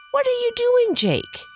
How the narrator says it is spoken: He cried

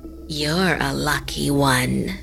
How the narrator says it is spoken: the woman said in a creepy voice

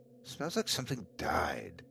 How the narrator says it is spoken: I muttered to myself

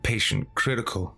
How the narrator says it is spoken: I mumbled

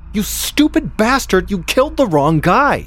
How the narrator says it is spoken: a woman barged in and shouted at him at the top of her lungs

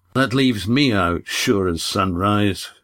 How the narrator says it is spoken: muttered Ridian

